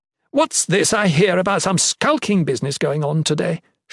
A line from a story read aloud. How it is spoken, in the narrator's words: she thundered